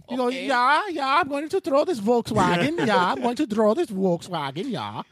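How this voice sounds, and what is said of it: Put-on Scandinavian accent. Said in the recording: “How did I pull out that fucking accent?”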